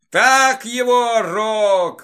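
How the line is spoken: Drunken shout. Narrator (Russian): выкрикнул захмелевший большой

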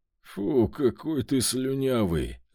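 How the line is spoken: Strained wheeze. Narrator (Russian): сдавленно просипел

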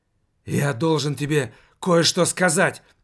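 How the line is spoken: Whispered. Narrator (Russian): прошептал

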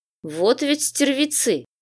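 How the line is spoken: Snorting to himself. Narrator (Russian): хмыкнул он про себя

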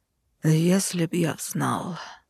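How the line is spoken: Near sigh. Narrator (Russian): практически вздохнул

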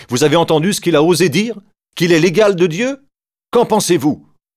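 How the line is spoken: Exclaiming. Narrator (French): Caïphe s'écrie

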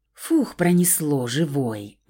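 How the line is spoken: Relieved exhale. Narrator (Russian): Облегченно выдохнула я

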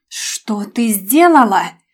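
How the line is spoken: Growled. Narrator (Russian): прорычал он

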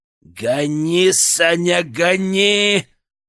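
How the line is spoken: Growl. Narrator (Russian): прорычал Генка

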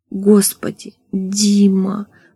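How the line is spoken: Moaning. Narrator (Russian): простонала она

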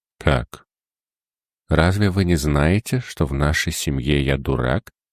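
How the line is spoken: Calm. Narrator (Russian): спокойно промолвил

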